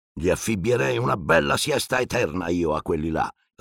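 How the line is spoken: Uncle growling. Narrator (Italian): ringhiò zio Vernon

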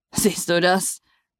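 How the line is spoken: Laughing. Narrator (German): sagte er lachend

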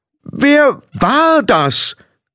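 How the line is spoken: Calling out again. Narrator (German): rief sie noch einmal

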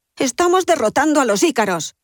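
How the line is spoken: Exclaimed. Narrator (Spanish): exclama Emmet

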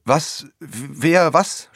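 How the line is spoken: Stammer. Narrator (German): stammelte

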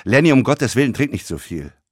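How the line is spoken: Sharp tone. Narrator (German): sagte er scharf

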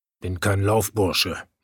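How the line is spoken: Muttered. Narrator (German): murmelte er

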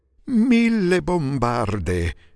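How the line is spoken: Fisherman's exclamation. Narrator (Italian): esclamò un pescatore

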